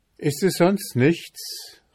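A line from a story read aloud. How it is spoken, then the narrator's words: Young man calling out. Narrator (German): rief der Bursche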